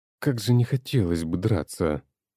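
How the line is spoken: Overly upset voice. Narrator (Russian): чересчур расстроенным голосом произнес Игорь

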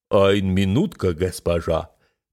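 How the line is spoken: Deep robotic bass. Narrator (Russian): пробасил робот

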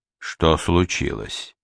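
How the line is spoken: Quiet question. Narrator (Russian): спросил Сварог тихо

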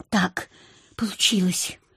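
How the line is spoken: Whisper. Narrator (Russian): прошептала я

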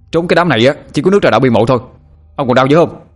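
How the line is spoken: Shouting back. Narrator (Vietnamese): Sinh quát lại

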